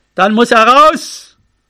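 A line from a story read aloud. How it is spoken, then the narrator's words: Shouting into the wind. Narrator (German): Er rief nach vorn in den Wind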